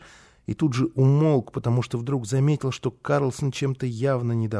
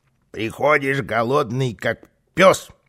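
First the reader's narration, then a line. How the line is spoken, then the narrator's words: Grumbling. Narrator (Russian): ворчал Карлсон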